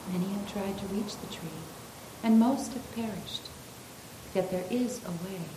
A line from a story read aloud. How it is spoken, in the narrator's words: The old man murmured sadly